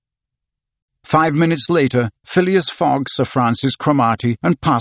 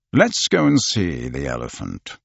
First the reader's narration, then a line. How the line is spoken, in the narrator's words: replied Mr